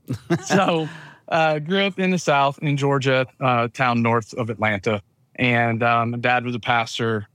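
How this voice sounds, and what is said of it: Southern US accent. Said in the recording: “I grew up as a pastor's kid in the southern United States. It's where I get my wonderful accent from.”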